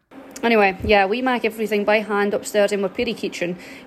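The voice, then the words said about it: Strong Shetland accent. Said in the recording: “that accent is demented, bro. ... Shetland? ... Yeah.”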